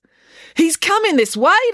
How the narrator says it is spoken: declared April excitedly

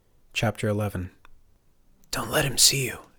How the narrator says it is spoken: Turner whispered

